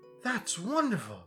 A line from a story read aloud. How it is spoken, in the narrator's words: gasped Milo